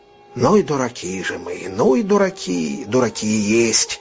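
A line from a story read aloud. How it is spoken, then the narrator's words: Slow and quiet. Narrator (Russian): сказал он медленно и негромко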